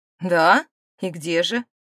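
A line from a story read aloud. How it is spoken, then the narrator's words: Sarcastic, furious question. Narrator (Russian): язвительно поинтересовался Брис, почему-то несказанно взбешенный присутствием Дэми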